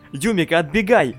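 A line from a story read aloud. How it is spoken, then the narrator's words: Stunned shout. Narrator (Russian): крикнул он, по-прежнему ошеломленно стоящий Миури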